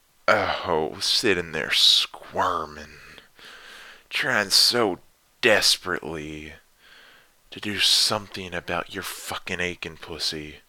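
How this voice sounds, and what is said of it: Southern accent. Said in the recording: “my little southern accent”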